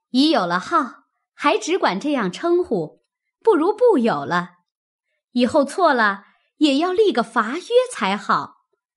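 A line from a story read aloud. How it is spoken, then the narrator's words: Laughing. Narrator (Chinese): 探春笑道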